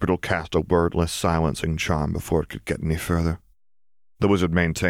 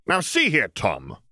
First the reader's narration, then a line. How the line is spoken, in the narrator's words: shouted the Hat